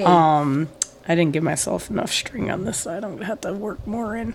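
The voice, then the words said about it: Hoarse, fading voice. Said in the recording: “I am losing my voice ... I will try my best to be, legible, intelligible ... Audible”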